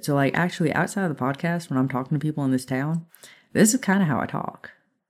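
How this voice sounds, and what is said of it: Southern American twang. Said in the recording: “more Southern ... between my husband having a twang ... surrounded by Southern people ... it does start to affect your speech a bit ... this is my actual accent now”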